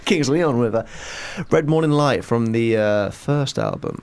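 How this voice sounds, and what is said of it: Announcer-style radio voice. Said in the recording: “That's his best radio voice.”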